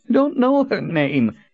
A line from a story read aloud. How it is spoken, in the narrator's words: he whined